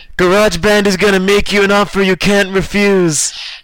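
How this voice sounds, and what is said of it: Bad mafia godfather character impression. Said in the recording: “there are only two kinds of Corleone impressions that I would have access to, bad and vaguely racist, and I chose just pure bad.”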